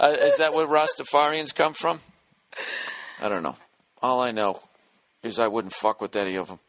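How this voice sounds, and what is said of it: Usual voice. Nothing is said of it.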